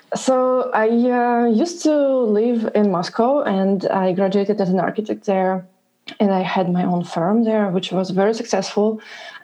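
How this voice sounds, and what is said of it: French accent. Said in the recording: “you have a French, beautiful French accent”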